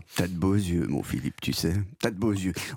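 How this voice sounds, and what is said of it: Imitates another person's voice. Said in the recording (French): “Quelle imitation, quel talent.”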